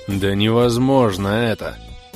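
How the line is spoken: Irritated, repeated declaration, short man. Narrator (Russian): в который уж раз заявил коротышка Крей, раздраженно

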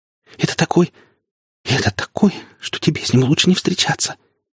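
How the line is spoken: Frightened woman's reply. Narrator (Russian): испуганно ответила женщина

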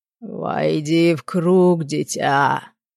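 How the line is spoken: Unearthly guttural voice. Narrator (Russian): неземным гортанным голосом произнес один из мужиков в хламиде

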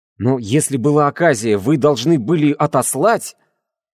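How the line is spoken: Exclaiming. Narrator (Russian): воскликнул я

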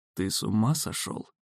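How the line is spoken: Gruff mutter. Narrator (Russian): буркнул сын

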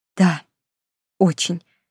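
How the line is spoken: Breathed out. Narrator (Russian): выдохнула я

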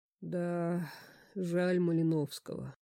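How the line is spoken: Sad sigh. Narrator (Russian): вздохнул Пушкин, и легкое облако грусти затуманило его оживленный взор

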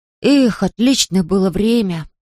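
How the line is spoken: Sighing. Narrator (Russian): вздохнул Пип

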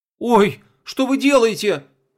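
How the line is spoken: Terrified scream. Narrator (Russian): в ужасе закричала принцесса Винкс

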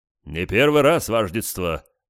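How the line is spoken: Deep bass voice. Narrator (Russian): пробасил кто-то

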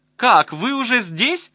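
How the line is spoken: Shout from behind. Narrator (Russian): закричала у меня за спиной Наташка

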